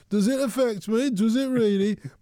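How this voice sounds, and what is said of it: Brummie accent. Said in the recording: “in my Brummy accent”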